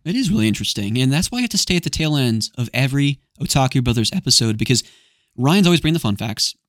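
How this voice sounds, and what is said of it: Tired, strained, fading voice. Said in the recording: “We've also been talking for nearly 3 hours, and I'm losing my voice.”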